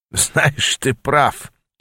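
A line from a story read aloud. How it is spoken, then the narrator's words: Giggling. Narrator (Russian): хихикнул он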